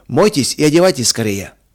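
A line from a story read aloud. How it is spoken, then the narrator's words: Calm and loud. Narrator (Russian): сказал он спокойно и громко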